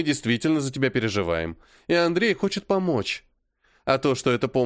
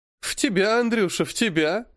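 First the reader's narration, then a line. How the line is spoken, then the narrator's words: Laughing woman. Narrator (Russian): засмеялась Мария Тимофеевна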